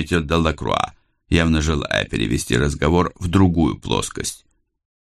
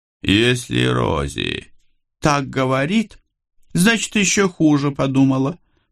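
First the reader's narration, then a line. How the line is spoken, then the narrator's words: Giggly woman amid laughter. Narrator (Russian): под общий смех добавила хохотушка Сьюзи Боннер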